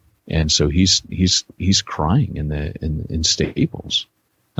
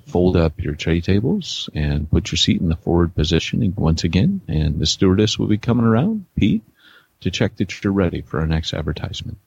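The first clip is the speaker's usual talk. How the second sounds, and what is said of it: Airline pilot announcement voice. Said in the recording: “put on your best pilot voice”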